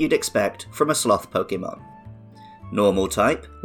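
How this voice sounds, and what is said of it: Usual voice. Nothing is said of it.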